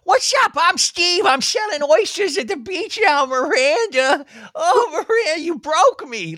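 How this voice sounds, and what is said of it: Impression of a TV character. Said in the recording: “that's a really good Steve impression”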